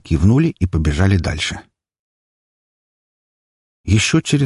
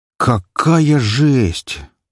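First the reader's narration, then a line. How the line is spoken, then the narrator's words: Breathless, almost admiring. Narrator (Russian): почти с восхищением выдохнула Мгла, еще одна девушка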